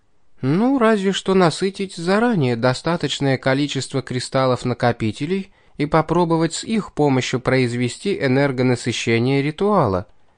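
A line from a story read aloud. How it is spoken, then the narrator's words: Hesitant, uncertain. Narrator (Russian): помолчав чуть, неуверенно произнесла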